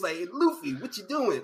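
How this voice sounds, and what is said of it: Put-on New York/Boston accent. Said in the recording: “they gave him like a New York / Boston accent ... he almost sound like ... He sounded like Joey Wheeler from Yu-Gi-Oh! A little bit.”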